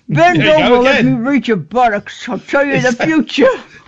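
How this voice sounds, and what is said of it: Imitates another person's voice. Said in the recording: “when you do an impression like her and then you say that, it sounds like bollocks, not buttocks”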